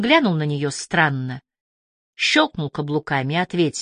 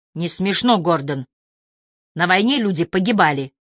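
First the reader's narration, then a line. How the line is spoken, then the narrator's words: Bark. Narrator (Russian): Винни рявкнула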